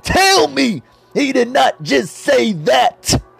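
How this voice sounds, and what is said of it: Imitates another person's voice. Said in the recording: “my best Booker T impersonation.”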